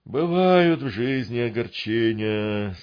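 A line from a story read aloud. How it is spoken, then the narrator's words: Sighing drawl. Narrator (Russian): со вздохом протянул Гундос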